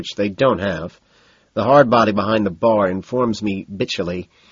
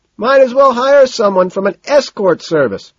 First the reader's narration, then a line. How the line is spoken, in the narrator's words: he shouts bitterly, almost without thinking